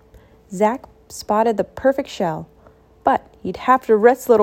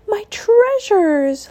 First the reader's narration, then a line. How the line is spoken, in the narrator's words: Leah gasped